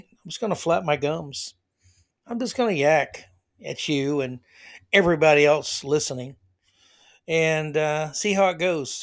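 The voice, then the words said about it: Tired-sounding voice. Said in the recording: “my voice is kind of tired”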